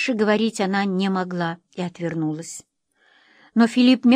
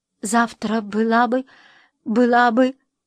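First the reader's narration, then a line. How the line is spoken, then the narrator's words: Trembling voice. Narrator (Russian): Дрожащим голосом она сказала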